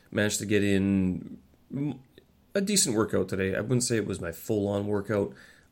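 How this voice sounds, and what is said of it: Slightly nasal congested voice. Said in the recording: “my voice is a little bit nasally, I guess you would call it”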